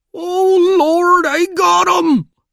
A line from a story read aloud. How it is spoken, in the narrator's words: With despairing shriek and a cry of